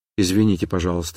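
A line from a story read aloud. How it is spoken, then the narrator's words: Quiet. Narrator (Russian): сказала она тихо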